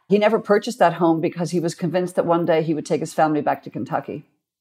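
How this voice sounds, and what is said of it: Irish accent. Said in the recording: “some of my Irish sayings ... that Irish accent really gets locked in”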